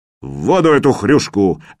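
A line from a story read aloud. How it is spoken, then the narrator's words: Barked command. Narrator (Russian): рявкнул кто-то командным голосом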